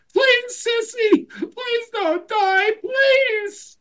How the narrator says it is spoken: tearfully repeated

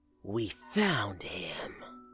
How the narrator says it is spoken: raspy voice say in my head

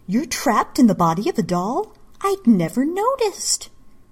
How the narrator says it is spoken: Misa exclaimed with mock surprise

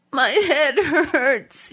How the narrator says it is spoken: he said, sobbing

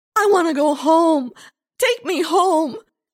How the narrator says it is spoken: Lindsay wailed

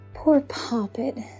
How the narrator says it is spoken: sighed Sandra

